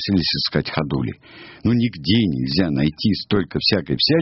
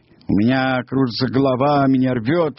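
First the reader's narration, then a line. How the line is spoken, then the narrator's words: Wailing. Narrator (Russian): вопил Сниф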